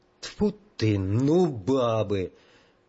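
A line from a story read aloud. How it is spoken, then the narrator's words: Grumbling. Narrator (Russian): проворчал генерал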